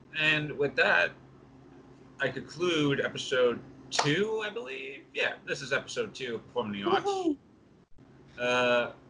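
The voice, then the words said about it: New York accent. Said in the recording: “your accent, the way you say 64-Bit Wanderer, is very interesting ... It's a New York thing. I have a way of saying certain words.”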